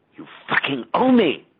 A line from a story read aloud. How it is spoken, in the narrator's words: I was hissing at him